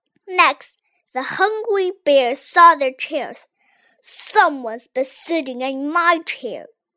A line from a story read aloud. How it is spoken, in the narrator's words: growled Big Papa Bear